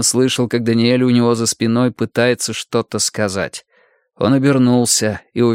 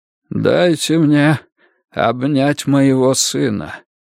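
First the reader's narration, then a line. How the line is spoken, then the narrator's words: Hoarse old man pleading. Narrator (Russian): хрипло попросил старик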